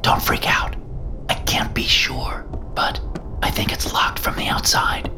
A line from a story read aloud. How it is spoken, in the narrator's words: I whispered